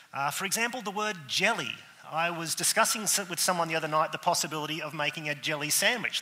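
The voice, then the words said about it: Australian-accented English speech. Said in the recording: “lumbered with the Australian as your preacher today ... I am the person in the room with the accent”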